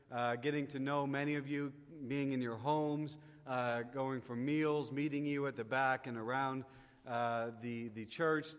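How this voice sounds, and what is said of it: Slight Canadian accent. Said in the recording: “Those are all the Canadian words. ... I know I have a little funny accent”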